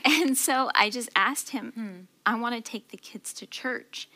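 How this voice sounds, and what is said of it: Emotional, choked-up voice. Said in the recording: “sorry if I get emotional”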